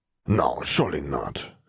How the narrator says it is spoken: he muttered

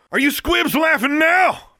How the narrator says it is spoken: yelled

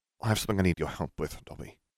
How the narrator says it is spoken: he murmured

